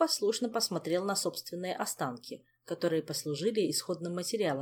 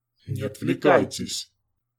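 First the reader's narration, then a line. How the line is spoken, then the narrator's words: Growl. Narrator (Russian): рыкнул Харган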